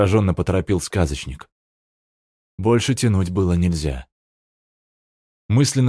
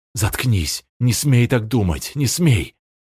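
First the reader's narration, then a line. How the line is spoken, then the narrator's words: Moaning storyteller. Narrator (Russian): Сказочник застонал, и Герда уподобилась ему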